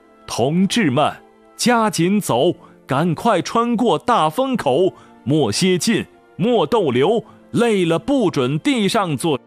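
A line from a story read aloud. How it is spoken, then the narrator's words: Rhythmic encouraging chant. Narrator (Chinese): 他 一遍遍喊着顺口溜，为战友鼓劲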